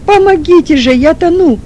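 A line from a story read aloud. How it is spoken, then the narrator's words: Shouting. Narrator (Russian): снова крикнул Чернов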